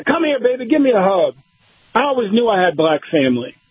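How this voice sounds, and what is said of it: Genteel Virginia Southern lady accent. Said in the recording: “this very genteel, you know, Virginia lady accent”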